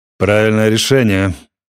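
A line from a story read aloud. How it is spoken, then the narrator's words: Officer barking. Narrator (Russian): гаркнул господин ротмистр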